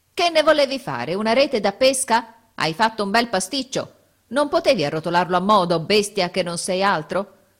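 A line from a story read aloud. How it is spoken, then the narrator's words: Grumbling, straining. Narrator (Italian): Brontola di tanto in tanto, affaticandosi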